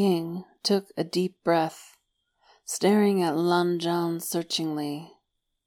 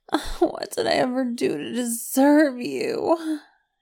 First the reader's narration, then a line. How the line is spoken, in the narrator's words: he wailed, his voice muffled against Lan Zhan's sleeping shirt